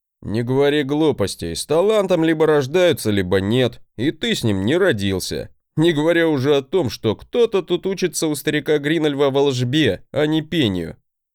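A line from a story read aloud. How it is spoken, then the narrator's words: Chuckling. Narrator (Russian): хохотнул он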